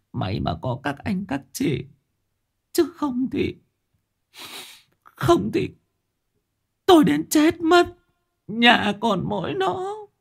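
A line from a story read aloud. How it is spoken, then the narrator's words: Old woman, tearful voice. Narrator (Vietnamese): bà cụ mếu máo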